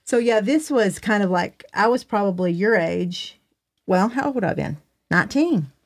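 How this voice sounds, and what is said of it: Southern accent. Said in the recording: “you still got a Southern accent... You do. You still do.”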